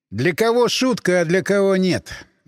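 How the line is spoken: Sighing. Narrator (Russian): вздохнул я

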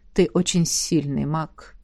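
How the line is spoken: Calm. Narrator (Russian): спокойно продолжила ректор

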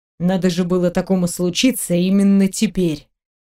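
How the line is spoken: Grumbling. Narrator (Russian): пробурчал он

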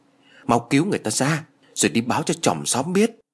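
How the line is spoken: Frightened trembling voice. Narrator (Vietnamese): Bà quá sợ hãi nên run rẩy nói

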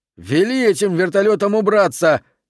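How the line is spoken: Shouted. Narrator (Russian): крикнул он штурвальному

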